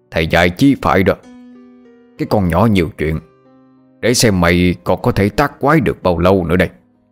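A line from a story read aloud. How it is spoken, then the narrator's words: Laughing, then harsh gritted voice. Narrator (Vietnamese): Lão Ngạn cười phá lên khen hay, gằn giọng mà nói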